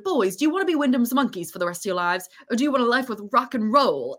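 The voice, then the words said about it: Badly done put-on accent. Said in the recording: “I'm going to do a terrible accent right now”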